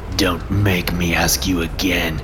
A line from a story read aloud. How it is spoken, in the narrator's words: the commander grunts at me